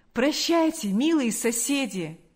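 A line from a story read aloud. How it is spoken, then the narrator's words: Exclaiming. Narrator (Russian): воскликнул он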